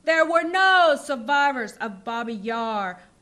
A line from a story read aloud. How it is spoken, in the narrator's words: roars Gretchen grimly